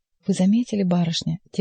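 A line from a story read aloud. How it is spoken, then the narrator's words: Quiet. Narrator (Russian): тихо сказала она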